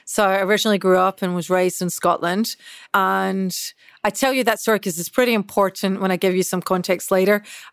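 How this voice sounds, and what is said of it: Scottish accent. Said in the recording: “as you can probably tell with this accent, I'm Scottish.”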